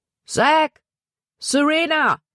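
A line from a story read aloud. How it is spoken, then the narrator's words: Calling out. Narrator (German): rief er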